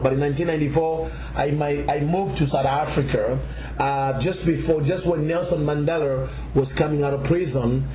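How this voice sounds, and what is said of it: Zambian accent. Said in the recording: “she has an accent... I'm originally from a country in Africa called Zambia”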